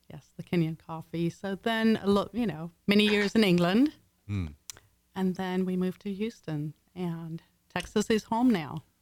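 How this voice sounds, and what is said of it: Mixed English and Texan accent. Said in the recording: “Why don't you have an English accent? ... It's a mix of English and Texas.”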